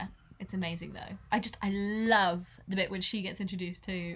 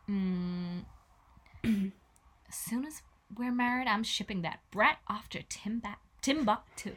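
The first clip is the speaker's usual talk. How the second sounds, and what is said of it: Sultry female character impression. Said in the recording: “Can you do a Meredith Blake impression? ... She just oozes like Marilyn Monroe, like sex vibes.”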